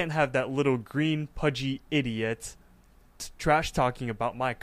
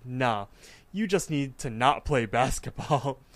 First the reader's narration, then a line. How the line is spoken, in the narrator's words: the god of basketball kind of laughs himself, and he's like